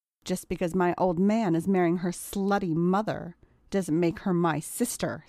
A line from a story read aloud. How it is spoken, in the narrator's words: spat John